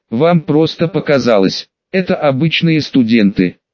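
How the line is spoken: Soft smiling reply. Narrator (Russian): мягко улыбнувшись, ответил Ульянов

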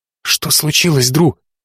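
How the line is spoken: Whisper. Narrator (Russian): прошептала Корделия

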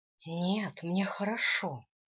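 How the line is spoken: Sighing. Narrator (Russian): вздохнула я

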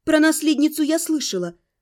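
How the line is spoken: Calm, suppressed indignation. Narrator (Russian): стараясь сдержать собственное возмущение, спокойно возразила в ответ

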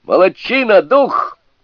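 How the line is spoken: Shouted. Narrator (Russian): крикнул в свою очередь Сунь-Кун

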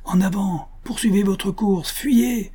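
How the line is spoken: Shouted. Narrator (French): cria-t-il aux deux jeunes filles

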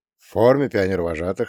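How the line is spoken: Plain. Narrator (Russian): ответил я

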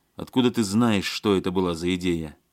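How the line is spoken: Angry question. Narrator (Russian): сердито спросил Алексей

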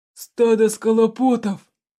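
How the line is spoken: Hoarse wheeze. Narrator (Russian): прохрипел Тулис

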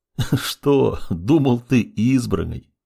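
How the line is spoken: Laughing. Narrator (Russian): рассмеялся он

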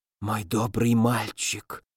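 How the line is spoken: Tender whisper. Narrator (Russian): нежно прошептал он

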